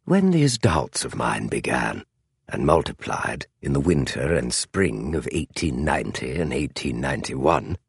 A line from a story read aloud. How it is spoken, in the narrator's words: Holmes said very softly